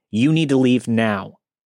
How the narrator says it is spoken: firmly said

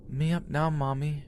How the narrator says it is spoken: in her little sweet voice

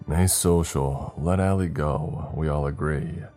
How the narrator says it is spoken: Dimitri said in a monotonous tone

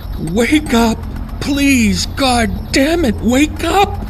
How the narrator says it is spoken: cried

